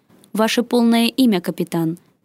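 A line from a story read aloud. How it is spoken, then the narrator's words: Stern voice. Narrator (Russian): произнесло изображение строгим голосом Нордиса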